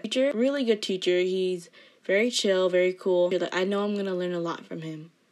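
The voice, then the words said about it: Flat monotone voice. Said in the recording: “my voice sounds super monotone... I just don't know really how to make my voice sound, like, exciting”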